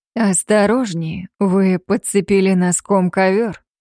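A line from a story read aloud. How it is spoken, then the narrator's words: Muffled, lower voice nearby. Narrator (Russian): глухо произнес совсем рядом голос, прозвучавший ниже, чем обычно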